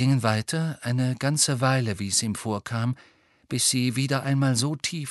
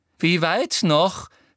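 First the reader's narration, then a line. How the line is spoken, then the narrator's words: Angry question. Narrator (German): fragte Umbridge hinter ihm wütend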